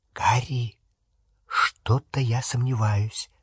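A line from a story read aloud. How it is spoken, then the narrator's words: Whispering. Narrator (Russian): зашептала Гермиона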